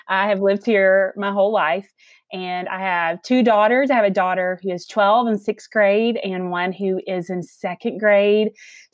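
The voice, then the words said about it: Southern US accent. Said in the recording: “you guys can hear the accent. So I am from the South. I am from Alabama.”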